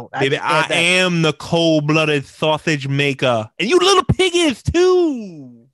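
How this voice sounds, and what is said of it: Dusty Rhodes impression. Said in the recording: “your Dusty Rhodes impersonation ... It's definitely not the best, but I do a decent job, I think. ... That's an old Dusty promo.”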